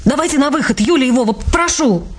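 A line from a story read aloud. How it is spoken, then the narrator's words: Barked. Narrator (Russian): рявкнула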